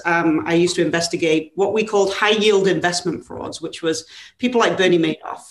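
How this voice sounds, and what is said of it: English accent. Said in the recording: “as you can tell by my not so California accent, I'm from England originally”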